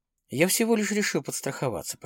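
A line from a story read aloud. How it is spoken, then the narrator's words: Muttering. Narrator (Russian): пробормотал Дронго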